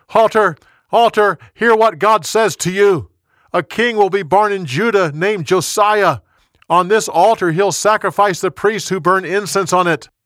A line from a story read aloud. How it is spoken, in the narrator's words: The young prophet yelled